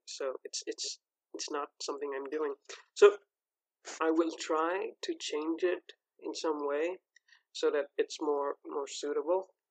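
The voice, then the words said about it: Speaks with a noticeable accent. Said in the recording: “one of the most prominent critical feedbacks were about my accent... This is the voice that I speak to myself”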